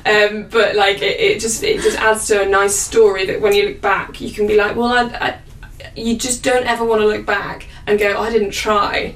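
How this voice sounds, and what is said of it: Northern English accent. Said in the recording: “my northern accent comes through more ... I'm from the north”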